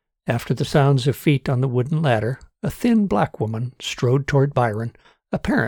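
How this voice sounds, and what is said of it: Usual voice. Nothing is said of it.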